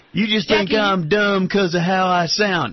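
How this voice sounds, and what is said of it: Bad fake Southern accent. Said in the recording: “fake Southern accent ... that's a bad accent”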